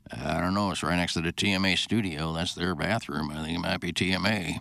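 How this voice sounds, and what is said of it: Imitates another person's voice. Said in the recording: “Is that your Rafe impression? ... Not bad. ... it's not bad. Mm-hmm. Not bad at all.”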